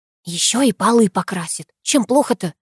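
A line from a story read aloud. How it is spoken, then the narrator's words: Close whisper in ear. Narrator (Russian): прошептала я, наклоняясь к самому дедову уху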